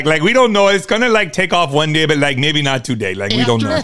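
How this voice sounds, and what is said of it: Put-on Miami accent drifting Midwestern. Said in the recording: “What is that accent? ... That's Miami. ... that is Miami in a hole. ... It turned into Wisconsin sort of at the end.”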